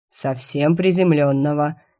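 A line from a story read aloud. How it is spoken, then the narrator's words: Snide demonic voice. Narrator (Russian): ехидно донеслось от демона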